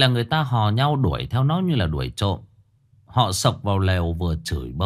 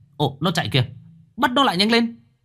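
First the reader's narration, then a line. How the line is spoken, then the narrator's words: Shout. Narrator (Vietnamese): có người hét lên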